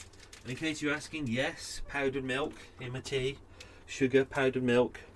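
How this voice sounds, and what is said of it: Usual voice. Nothing is said of it.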